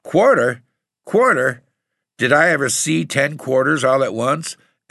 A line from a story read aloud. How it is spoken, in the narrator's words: he laughed, saying